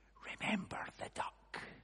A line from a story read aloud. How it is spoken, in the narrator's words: whispered